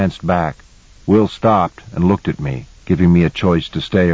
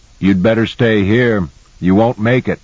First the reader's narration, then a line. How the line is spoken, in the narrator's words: Jensen called out